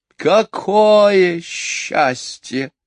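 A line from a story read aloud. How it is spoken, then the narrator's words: Loud sigh. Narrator (Russian): громко вздохнула мисс Ларк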